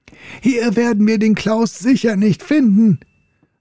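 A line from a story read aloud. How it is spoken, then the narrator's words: Shouting over roaring wind. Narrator (German): rief Helge gegen den tosenden Wind an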